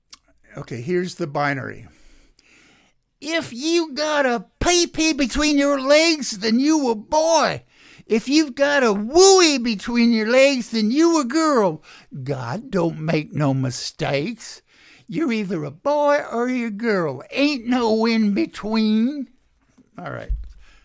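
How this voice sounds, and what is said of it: Mock Southern politician voice. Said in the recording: “my stupid imitation of a Christian nationalist, MAGA-head, GOP, Southern politician”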